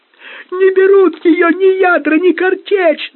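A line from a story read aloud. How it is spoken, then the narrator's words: Yelling. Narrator (Russian): заорал рулевой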